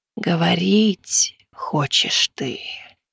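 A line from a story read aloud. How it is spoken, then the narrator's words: Eerie telepathic whisper. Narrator (Russian): Жутковатый шепот, хотя она и не открывала рта, проник в сознание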